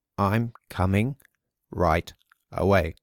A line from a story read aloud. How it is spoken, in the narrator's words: said Gregor slowly and deliberately